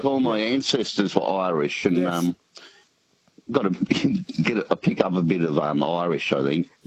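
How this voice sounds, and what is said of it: Australian accent, country New South Wales. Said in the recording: “What kind of Aussie accent is it? ... I'm thinking it's country New South Wales. ... Yeah, it is.”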